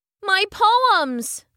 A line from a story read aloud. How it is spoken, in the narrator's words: Emily cried out